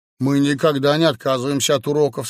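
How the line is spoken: Plain. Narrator (Russian): сказал Удалов

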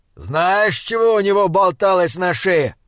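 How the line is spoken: Shouted. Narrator (Russian): крикнул он

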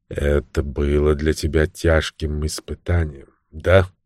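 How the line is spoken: Soft voice. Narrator (Russian): сказал он мягким голосом

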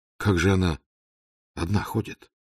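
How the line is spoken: Quiet question. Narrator (Russian): тихо спросил Раст Петрович

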